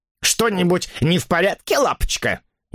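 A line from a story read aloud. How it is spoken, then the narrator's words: Snide question. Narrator (Russian): ехидно поинтересовалась она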